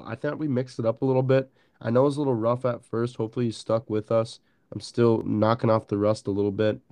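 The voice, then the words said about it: Congested, nasal voice. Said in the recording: “my allergies are terrible. So I sound like a duck... I just sound terrible”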